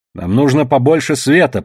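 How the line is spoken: Shout. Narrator (Russian): прокричала я

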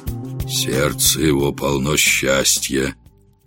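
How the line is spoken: Hermit's murmur. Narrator (Russian): Отшельник пробормотал

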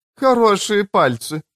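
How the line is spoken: Curt, mocking. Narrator (Russian): насмешливо бросила она

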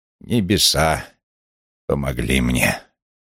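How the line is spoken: Solemn. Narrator (Russian): торжественно произнес

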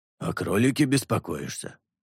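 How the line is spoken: Scoffing. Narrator (Russian): хмыкнул змеедел

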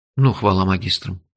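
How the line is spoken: Sighing. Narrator (Russian): вздохнул я

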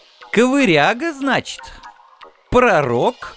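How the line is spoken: Sarcastic. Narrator (Russian): язвительно начал я

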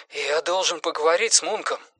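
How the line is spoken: Breathed out. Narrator (Russian): выдохнул он

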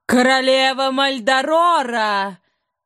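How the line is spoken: Triumphant shout. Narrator (Russian): Торжествующе прокричало ее величество

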